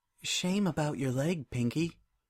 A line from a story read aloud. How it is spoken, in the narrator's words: whispered